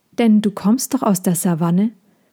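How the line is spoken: Gentle question. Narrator (German): fragte Mina sanft weiter

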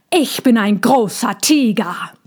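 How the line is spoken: Growled. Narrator (German): knurrte Tommy

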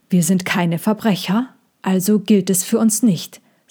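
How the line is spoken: Plain. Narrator (German): sagte Sejana

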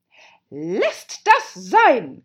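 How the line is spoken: Queen shrieking. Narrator (German): kreischte die Königin

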